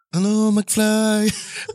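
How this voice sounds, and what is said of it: Imitates a film character's voice. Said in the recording (French): “C'est le concours d'imitation de, de Biff”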